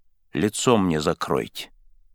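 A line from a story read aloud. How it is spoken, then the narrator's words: Quiet, exhausted. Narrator (Russian): сказал он тихо, потому как силы его уже истощились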